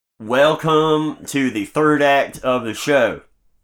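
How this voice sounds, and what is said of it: Half-hearted put-on accent. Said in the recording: “I can do a much better accent than that. I'm just not feeling it tonight.”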